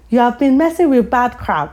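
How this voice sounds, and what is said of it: Put-on African accent. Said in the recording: “Obviously with an Af accent. So try to imagine an Af accent.”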